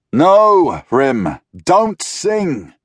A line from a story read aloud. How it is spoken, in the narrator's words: Roderick cried